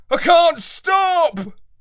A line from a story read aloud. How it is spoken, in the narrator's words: I called out